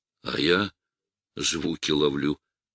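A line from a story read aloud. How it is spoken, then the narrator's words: Whispered reply. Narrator (Russian): тоже шепотом отозвался Андрей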